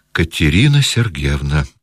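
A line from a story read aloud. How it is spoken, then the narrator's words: Trembling voice. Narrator (Russian): проговорил он дрожащим голосом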